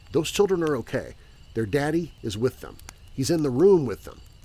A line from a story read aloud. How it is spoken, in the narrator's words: One of my really strange and recluse neighbors calmly told